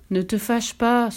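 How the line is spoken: Old man sighing. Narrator (French): soupira le vieil homme

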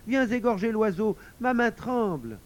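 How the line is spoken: Child shouting. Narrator (French): cria l'enfant

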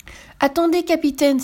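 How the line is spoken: Exclaiming. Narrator (French): s'écrie Carmela

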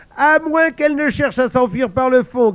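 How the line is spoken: Yelping through laughter. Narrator (French): glapit un troisième en se tenant les côtes

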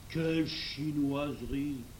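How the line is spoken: Murmuring. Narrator (French): murmura Traugott

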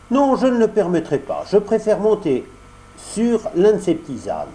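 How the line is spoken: Exclaiming. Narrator (French): s'écria Pinocchio

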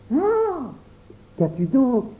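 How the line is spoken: Exclaimed. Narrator (French): s'écria Pierre

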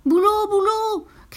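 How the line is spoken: Shouting. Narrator (French): criait Perlette

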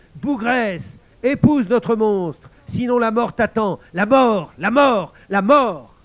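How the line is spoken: Group shouting. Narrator (French): Ils lui criaient

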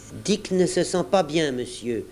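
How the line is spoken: Plain. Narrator (French): dit l'un d'eux

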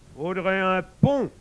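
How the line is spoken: King grumbling. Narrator (French): grogna le roi

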